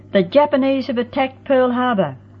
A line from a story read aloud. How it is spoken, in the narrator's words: Ken had burst into the house that day yelling